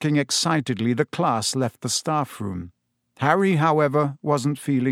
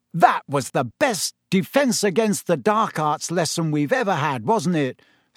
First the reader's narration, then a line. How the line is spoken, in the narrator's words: said Ron excitedly